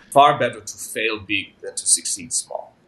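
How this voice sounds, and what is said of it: Attempted Russian accent. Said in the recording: “this guy was Russian. I can't do his accent very well.”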